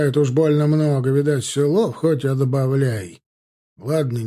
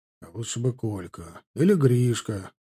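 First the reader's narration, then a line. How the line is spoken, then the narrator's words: Gruff mutter. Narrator (Russian): буркнул Ярыгин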